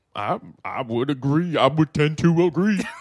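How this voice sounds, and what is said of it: Deep put-on Southern accent. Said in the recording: “don't go too deep with that voice ... A little different accent of the South ... I was just trying to be real Georgia-like.”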